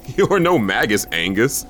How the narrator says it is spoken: I laughed

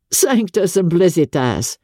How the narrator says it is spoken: he exclaimed

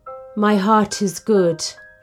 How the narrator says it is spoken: he sighed

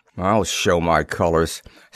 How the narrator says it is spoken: Standish muttered, a grim smile playing about his lips

